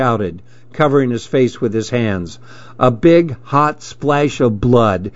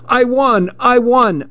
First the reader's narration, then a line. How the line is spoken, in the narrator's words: I shouted